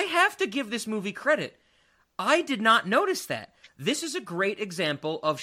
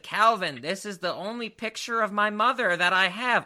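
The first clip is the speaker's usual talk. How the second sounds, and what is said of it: Imitates another person's voice. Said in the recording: “my Jonathan Lipnicki impression sounds like my David Lynch impression”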